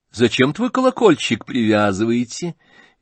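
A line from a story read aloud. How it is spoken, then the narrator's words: Cheerful. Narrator (Russian): весело проговорила она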